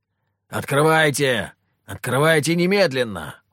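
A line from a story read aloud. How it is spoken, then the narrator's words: Hoarse male voice. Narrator (Russian): хриплый мужской голос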